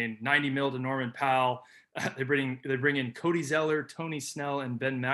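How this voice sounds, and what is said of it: Usual voice. Nothing is said of it.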